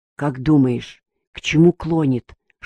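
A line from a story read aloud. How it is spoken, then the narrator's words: Whisper. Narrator (Russian): шепнул Еремеев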